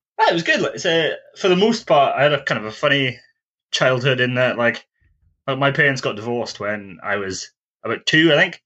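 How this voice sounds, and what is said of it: Mixed South Welsh and Scottish accent. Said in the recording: “your accent is a hybrid between South Wales and Scotland”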